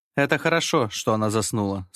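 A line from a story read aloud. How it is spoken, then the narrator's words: Plain. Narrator (Russian): сказал я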